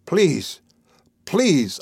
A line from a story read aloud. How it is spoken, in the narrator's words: I shouted at her harshly